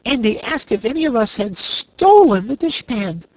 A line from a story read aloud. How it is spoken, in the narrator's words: continued Corporal Waddle indignantly